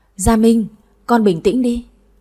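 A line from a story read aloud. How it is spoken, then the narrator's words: Stammering. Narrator (Vietnamese): Bà Tư lắp bắp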